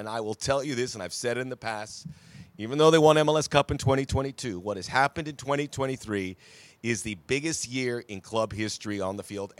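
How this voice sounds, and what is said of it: Hoarse voice. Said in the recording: “I called the game. That's why I'm a little bit hoarse.”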